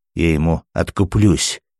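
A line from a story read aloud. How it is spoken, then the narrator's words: Quiet, angry policeman. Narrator (Russian): тихо и зло проговорил опер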